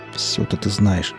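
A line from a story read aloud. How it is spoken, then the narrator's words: Muttered. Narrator (Russian): буркнул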